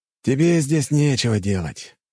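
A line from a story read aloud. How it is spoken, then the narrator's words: Sighing, major. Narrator (Russian): вздохнул майор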